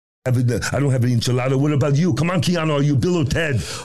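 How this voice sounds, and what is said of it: Weak Schwarzenegger impression. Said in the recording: “Doing Schwarzenegger. ... his Schwarzenegger, it was never great”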